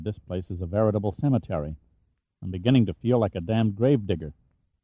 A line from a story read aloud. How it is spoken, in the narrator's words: Stanley murmured